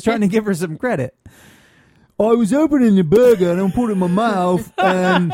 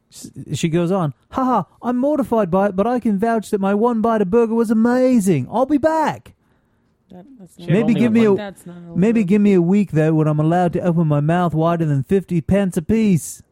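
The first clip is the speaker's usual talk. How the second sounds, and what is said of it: Put-on English accent. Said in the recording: “The accent ... my dumb Englishman accent”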